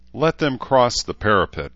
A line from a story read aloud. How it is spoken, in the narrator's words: Edmund said in an amused tone